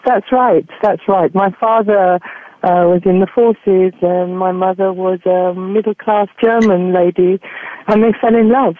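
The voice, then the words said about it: English accent. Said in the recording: “a beautiful English accent”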